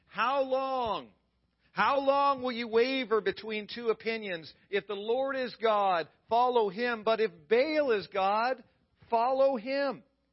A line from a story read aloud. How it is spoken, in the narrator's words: Elijah yells out